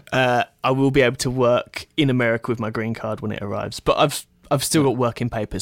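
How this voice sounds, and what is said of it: British speaker with American accent. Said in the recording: “that American accent that you've got going on”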